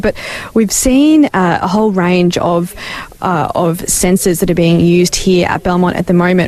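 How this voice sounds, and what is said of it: Speaking in a quiet whisper. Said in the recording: “I'm just whispering a bit because they're still over there chatting”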